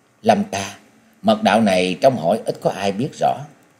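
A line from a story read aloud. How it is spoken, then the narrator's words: Soft quiet voice. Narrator (Vietnamese): nàng lên tiếng nói khẽ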